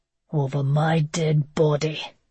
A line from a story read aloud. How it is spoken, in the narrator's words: came an angry growl